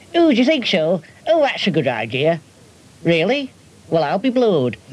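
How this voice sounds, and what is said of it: Silly old grandmother character voice. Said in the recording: “we need a silly voice now. So I invented Gran. She was my silly old grandmother”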